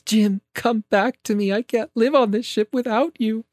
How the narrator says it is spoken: Aurora tearfully says

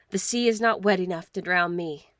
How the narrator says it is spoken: he had said

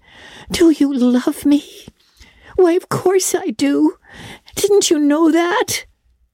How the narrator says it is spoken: cried Anne

